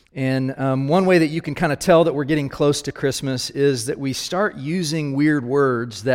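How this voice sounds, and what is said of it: Usual voice. Nothing is said of it.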